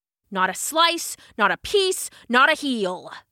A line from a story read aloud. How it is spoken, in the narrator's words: snarled